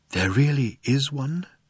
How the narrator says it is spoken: breathed Falk

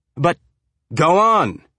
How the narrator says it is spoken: he shouted

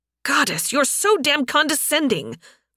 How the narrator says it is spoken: Vera snapped

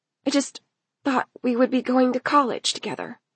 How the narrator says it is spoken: Elle whispered

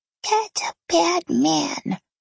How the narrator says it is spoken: Daniel said quietly

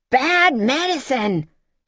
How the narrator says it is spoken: she shouted back from inside a whirlwind of noise

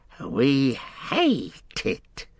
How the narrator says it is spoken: he hissed

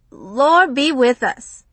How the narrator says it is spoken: Romy laughed

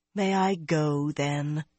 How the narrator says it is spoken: Nynaeve asked wearily

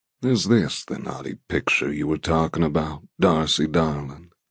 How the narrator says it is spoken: He asks in a droll tone

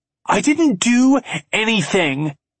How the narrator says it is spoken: Trey shouts

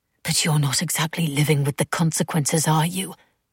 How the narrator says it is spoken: Beth whispered back

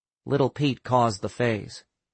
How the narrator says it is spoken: Sam said flatly

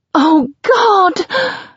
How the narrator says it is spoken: scream as he fills me completely

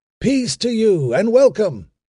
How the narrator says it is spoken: a man in the tree cried

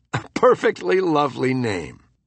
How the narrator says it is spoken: Yancey laughed and said

